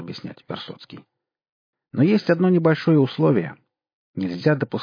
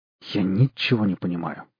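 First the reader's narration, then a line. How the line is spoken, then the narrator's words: Shocked mutter. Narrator (Russian): пробормотал потрясенный Костя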